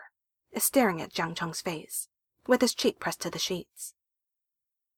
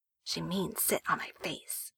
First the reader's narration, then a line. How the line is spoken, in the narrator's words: Wei Ying whispers to Jiang Chong